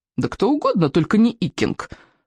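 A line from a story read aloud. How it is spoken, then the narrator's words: Snorting brute. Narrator (Russian): фыркнул сморкало мордоворот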